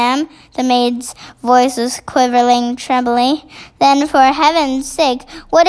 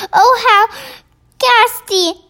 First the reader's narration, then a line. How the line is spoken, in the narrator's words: the famous voice cried out